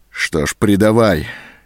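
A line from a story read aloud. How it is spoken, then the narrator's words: Despairing, through clenched teeth. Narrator (Russian): с отчаянием обреченно процедил сквозь зубы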